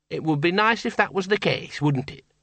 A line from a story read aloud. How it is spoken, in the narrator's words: she said brightly